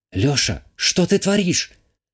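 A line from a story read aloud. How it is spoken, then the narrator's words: Worried whisper in ear. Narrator (Russian): обеспокоенно шепнула мне на ухо Вика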